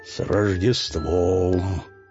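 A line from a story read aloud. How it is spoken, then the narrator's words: Remarkably melodious voice. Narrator (Russian): сказал Дед Мороз удивительно мелодичным голосом, звучавшим намного лучше, чем раньше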